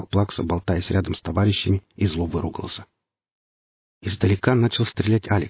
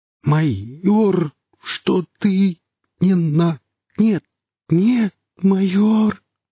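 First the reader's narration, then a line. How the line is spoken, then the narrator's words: Writhing, pained moan. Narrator (Russian): застонал Плакса, корчась в невидимой хватке магнита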